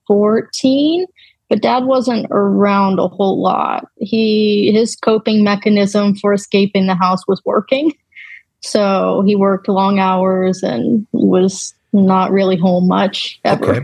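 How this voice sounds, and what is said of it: Slight Southern US accent. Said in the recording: “I hear a little bit of an accent there, so I'm going to guess somewhere down south”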